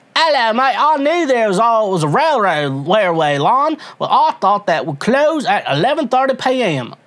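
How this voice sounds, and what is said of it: Bad put-on British accent. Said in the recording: “I got to read in a British accent ... I'm sorry, my accent's bad.”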